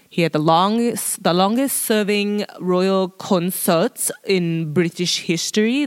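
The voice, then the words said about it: Badly done put-on accent. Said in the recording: “I don't know what the fuck accent that was. Wow, I cannot do accents. ... That sucked.”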